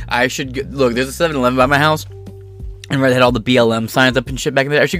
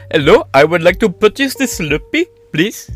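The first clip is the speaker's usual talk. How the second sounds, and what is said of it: Put-on slight Indian accent. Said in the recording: “slight Indian accent ... What's with that accent? ... So I have a slight accent.”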